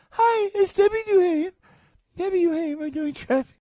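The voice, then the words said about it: Poor imitation of another person's voice. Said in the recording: “That's a really bad impression.”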